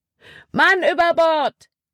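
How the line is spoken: Called out. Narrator (German): rief Caleb

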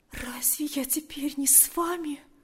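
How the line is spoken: Whisper. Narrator (Russian): прошептала она

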